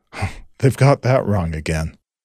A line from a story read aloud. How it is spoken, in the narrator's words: Anton nervously laughed